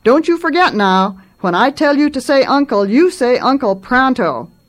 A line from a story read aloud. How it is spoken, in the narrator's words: Feeling dissatisfied, not properly victorious at all, Martin shouted